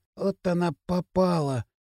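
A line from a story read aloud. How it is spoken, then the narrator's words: Sudden whisper, boy. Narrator (Russian): Прошептал вдруг восьмиклассник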